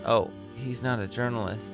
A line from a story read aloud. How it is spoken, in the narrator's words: whispered back